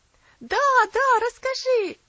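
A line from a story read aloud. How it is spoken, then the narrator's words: Children shouting. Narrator (Russian): закричали малыши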